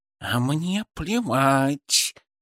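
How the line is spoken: Hissing. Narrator (Russian): Шипа зашипела

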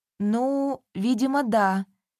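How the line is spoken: Uncertain. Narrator (Russian): неуверенно проговорила Мария

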